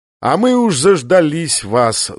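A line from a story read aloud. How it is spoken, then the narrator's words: Annoyed grumble. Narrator (Russian): с досадой проворчал Дик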